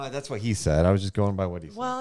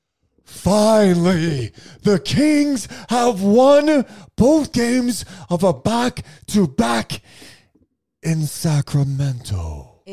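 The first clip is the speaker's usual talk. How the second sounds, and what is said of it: Impression of The Rock. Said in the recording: “your impersonation of The Rock? ... Let me show you how that's done. ... did a Rock impression”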